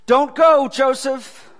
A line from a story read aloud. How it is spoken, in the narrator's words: Wally cried out